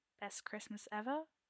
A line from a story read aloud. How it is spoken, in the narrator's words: Arthur asks dryly